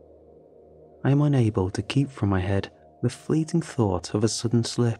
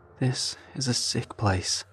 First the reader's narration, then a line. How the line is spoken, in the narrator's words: Manny says in a low voice